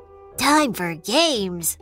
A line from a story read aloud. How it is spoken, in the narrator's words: laughed the not-so-very-clever pig